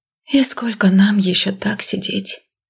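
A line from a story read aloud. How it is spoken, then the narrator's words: Quiet question. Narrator (Russian): тихо спросила Миранда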